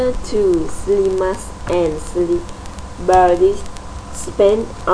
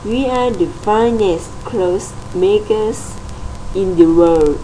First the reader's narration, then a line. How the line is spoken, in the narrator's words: they said